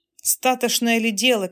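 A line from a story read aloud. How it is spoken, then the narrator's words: Shouting. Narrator (Russian): кричала Фатемна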